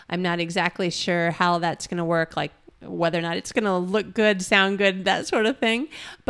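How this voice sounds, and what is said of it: Partly lost, strained voice. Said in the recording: “lost my voice”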